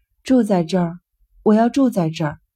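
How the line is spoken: Sighing. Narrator (Chinese): 尤西……叹了口气

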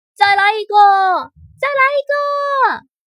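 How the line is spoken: Crowd cheering loudly. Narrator (Chinese): 观众们大声欢呼

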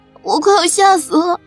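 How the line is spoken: Tearful voice. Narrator (Chinese): 带着哭腔的开口

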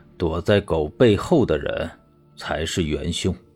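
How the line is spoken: Deep grave voice. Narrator (Chinese): 沉声道

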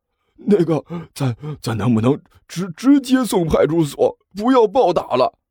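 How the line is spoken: Breathless, flustered. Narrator (Chinese): 侯三…还没等喘气儿喘匀呢，就急慌慌的说道

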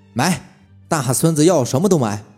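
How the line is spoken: Happy, grinning laughter. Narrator (Chinese): 老赵咧着个大嘴，笑得很是开心

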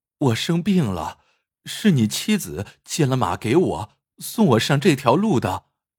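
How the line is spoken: Pleading tone. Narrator (Chinese): 邹浩几乎是用哀求的语气说道

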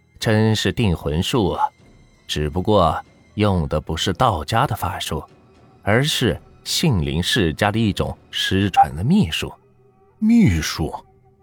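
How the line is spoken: Calm, flat. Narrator (Chinese): 刘半仙 淡淡的说道

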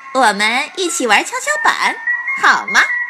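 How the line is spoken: Giggling. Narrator (Chinese): 罗拉咯咯地笑着说

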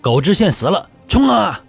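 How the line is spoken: Excited roar. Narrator (Chinese): 李憨娃看到对方主将身亡，兴奋地大吼道

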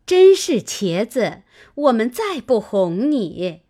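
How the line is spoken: Group laughing. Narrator (Chinese): 众人笑道

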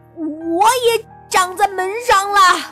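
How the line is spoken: Robber shouting. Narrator (Chinese): 大强盗喊

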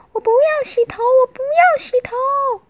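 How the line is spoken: Whining wail. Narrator (Chinese): Michael 一早就开始哀叫了

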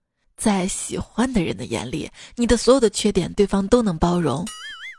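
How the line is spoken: Boy, smiling. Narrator (Chinese): 男孩笑了笑说

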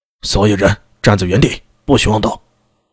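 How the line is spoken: Stern shout. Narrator (Chinese): 金武卫又厉声喝道

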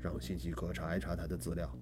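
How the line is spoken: Low-voiced order. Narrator (Chinese): 低声吩咐道

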